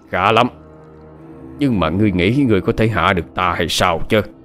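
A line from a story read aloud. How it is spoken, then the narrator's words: Shrill triumphant laugh. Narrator (Vietnamese): Ả cười rít lên đắc ý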